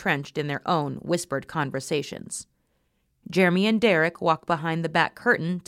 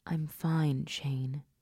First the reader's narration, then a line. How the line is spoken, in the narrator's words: he whispered again